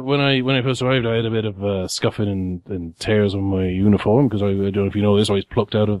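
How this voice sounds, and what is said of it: Character voice drifting Cornish. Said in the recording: “my accent's gone a little bit Cornish there.”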